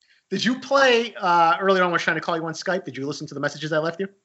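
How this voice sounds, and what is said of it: Usual voice. Nothing is said of it.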